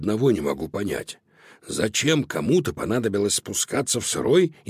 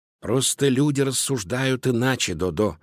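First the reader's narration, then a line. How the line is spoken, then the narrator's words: Plain. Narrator (Russian): ответил Луноброд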